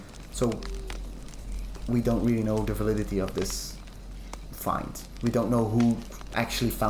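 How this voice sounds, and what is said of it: Usual voice. Nothing is said of it.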